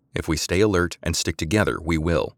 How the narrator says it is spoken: Samantha said

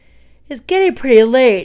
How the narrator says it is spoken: he yawned

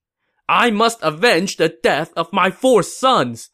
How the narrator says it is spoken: shouted

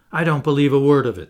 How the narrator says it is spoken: the Canadian replied

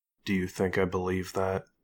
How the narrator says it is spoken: Marie quietly asked

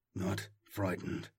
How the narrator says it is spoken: Arvo muttered

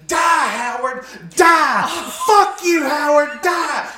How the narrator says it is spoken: my mom screaming at the top of her lungs

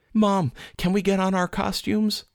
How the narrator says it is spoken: begged

